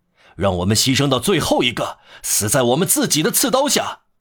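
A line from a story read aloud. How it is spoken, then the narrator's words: Shouting. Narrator (Chinese): 有一个人喊道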